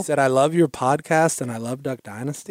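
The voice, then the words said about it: Put-on Minnesota accent. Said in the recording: “That's my Minnesota accent. I don't know if it's any good.”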